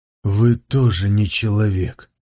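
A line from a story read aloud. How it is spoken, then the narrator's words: Resigned sigh. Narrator (Russian): обреченно вздохнул Сунзиюй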